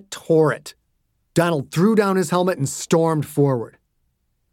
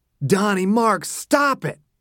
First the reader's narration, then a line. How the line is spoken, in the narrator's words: Bobby yelled